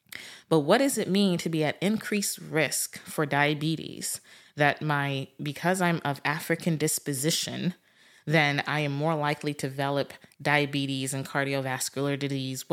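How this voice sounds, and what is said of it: African-accented English. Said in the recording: “I have an African background ... y'all will hear my accent slip out every now and again ... English is not my first language”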